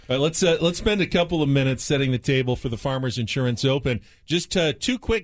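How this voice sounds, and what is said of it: Usual voice. Nothing is said of it.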